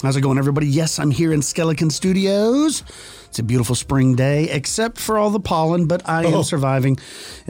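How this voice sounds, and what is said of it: Nasal, congested voice. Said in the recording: “I sound a little nasally ... I haven't been able to use my nose in like 3 or 4 days.”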